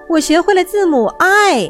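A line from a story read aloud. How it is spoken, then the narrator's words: Very excited cry. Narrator (Chinese): 小老鼠非常兴奋地叫道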